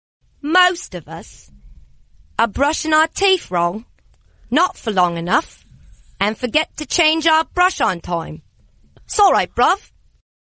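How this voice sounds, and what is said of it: Put-on Cockney London accent. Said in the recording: “be a real true Londoner and give me a Cockney accent”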